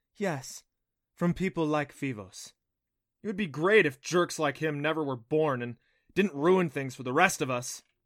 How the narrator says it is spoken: said hotly

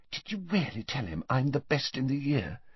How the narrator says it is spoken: Hermione turned to Harry with a radiant expression and whispered

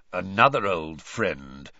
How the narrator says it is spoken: growled Moody

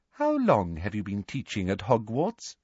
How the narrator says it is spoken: Professor Umbridge asked

